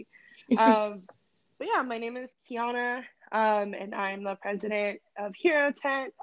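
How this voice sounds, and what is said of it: Slightly raspy voice. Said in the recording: “apologize for my voice. It's a little raspy.”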